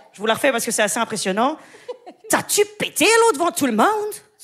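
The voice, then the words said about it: Put-on Québécois French accent. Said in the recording (French): “C'est un accent d'AVC? ... Non, c'est l'accent québécois.”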